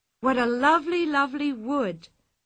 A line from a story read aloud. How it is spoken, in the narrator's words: cried Anika in delight